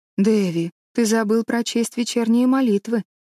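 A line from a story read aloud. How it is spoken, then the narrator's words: Gentle reproach. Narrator (Russian): мягко упрекнула его Энн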